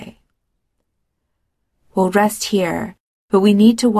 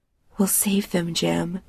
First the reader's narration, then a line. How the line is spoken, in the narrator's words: she whispers